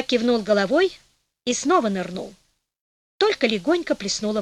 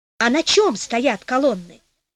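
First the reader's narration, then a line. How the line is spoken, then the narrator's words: Plain. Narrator (Russian): спросил король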